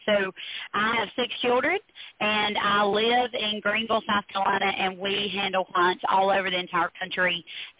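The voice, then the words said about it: Speaks with a noticeable regional accent. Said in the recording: “I love your accent ... it would still be a good delivery ... I love your accent”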